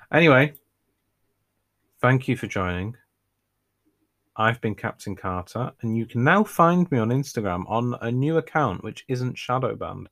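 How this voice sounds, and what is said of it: Northern English accent. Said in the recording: “somebody with my accent, which is important because I live in the north of England”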